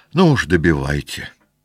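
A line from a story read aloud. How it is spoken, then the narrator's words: Sad voice. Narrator (Russian): сказала она лакею грустным голосом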